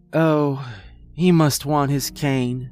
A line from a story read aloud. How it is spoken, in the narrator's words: sighed